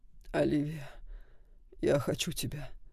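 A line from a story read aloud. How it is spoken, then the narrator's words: Moaning into ear. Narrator (Russian): простонал Саймон ей на ухо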